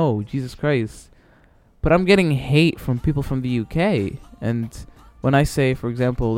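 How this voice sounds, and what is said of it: Usual voice. Nothing is said of it.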